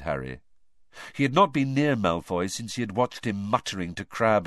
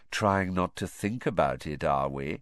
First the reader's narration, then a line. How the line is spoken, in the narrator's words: said Malfoy, softly